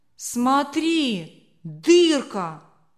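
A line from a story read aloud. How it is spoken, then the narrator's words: Shouted. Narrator (Russian): выкрикнул Леня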